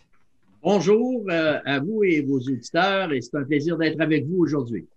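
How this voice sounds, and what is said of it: Québécois French accent. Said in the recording (French): “a l'accent québécois aussi”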